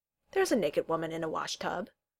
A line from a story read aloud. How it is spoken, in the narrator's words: Valeron said blandly